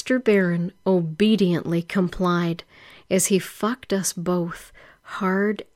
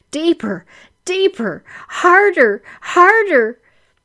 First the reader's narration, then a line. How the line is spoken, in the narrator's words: screaming